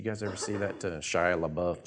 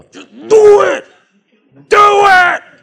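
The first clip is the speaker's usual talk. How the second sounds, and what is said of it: Yelling imitation of another person. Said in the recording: “why are you yelling at me?”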